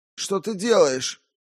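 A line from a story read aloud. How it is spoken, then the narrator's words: Exclaiming. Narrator (Russian): воскликнул Уильям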